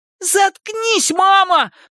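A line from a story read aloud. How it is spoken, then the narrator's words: High piercing shout. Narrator (Russian): прокричал Эдди высоким пронзительным голосом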